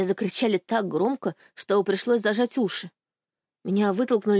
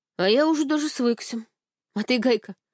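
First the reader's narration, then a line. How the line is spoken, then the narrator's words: Amused snort. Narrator (Russian): хмыкнул Степа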